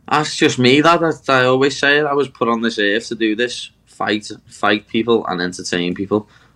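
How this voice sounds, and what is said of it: Strong regional accent. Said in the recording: “with your incredible accent”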